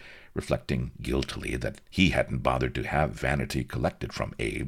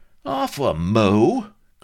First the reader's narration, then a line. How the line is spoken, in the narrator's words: cried Vladimir indignantly